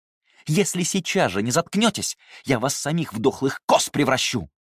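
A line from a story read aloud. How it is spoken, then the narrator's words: Snapping in anger. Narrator (Russian): Талия сорвалась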